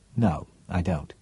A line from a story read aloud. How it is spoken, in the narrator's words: said Cheryl flatly